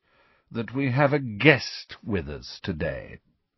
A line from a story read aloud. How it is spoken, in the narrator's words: said Snape in his low, sneering voice